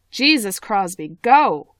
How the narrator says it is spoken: Habshid shouts

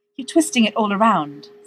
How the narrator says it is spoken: says Dean desperately

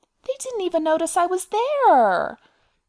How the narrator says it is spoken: Ori said, his voice a near wail of despair

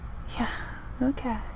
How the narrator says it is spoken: Styles murmured

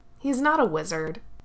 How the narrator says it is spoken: Jagat told her scornfully

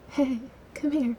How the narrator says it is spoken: a little breathlessly

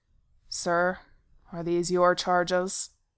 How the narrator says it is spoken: one of the officers asked coldly

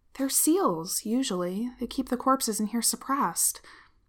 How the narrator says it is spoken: he mutters

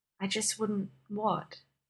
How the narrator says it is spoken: He asked softly

